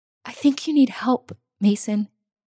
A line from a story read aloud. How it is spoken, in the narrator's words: she whispered